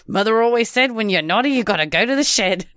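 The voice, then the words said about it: Put-on Australian accent. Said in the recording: “doing this Australian accent”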